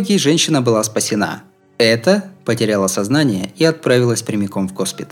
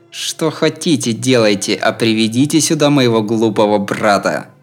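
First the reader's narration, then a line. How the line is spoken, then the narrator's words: Through clenched teeth. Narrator (Russian): Говорила она сквозь зубы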